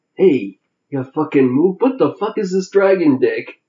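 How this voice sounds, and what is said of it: Imitates a movie gangster's voice. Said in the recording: “I don't do a very good Robert De Niro ... That was me trying to do Joe Pesci in Casino.”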